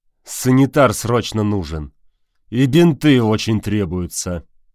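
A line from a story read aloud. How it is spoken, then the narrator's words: Through gritted teeth. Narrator (Russian): сказал сквозь зубы брат Валитары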